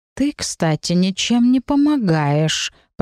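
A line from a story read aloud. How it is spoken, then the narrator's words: Hiss. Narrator (Russian): прошипел Сигизмунд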